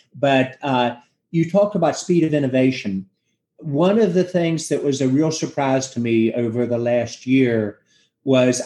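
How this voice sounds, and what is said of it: Southern US accent. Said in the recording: “We speak with a little bit different accent, and I apologize my Southern roots on that.”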